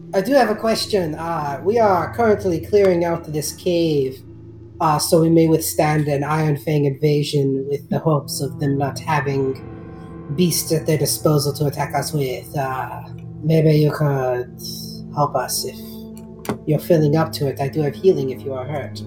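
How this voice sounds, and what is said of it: Odd put-on character accent. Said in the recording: “what's going on with your, like, accent, bro? Are you, like, Chinese or, like, French?”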